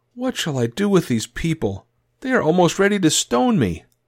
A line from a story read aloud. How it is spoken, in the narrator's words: Moses cried to Yahweh, saying